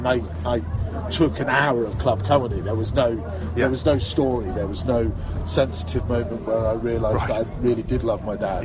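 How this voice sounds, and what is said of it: Scottish Aberdonian accent. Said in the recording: “you're a Scottish ... Clearly, you're an Aberdonian. ... my accent, you'll realise that it's parachute regiment. ... Ended up with a generic British army accent.”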